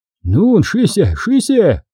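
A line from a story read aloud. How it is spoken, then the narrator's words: Furious determined shout. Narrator (Russian): Со злой решимостью в ярости закричал немец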